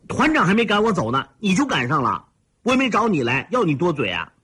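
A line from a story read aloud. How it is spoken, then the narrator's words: Angry shout. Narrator (Chinese): 惹恼了 猛地站起来，冲着和尚喊道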